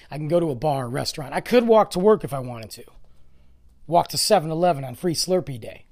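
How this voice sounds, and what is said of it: Hoarse, fading voice. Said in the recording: “Am I going to lose my voice again? Good God. ... my voice is gone. I swear, I just talk too much.”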